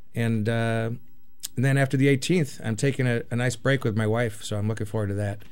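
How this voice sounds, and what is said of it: Slightly raspy voice. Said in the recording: “My voice is getting a little raspy.”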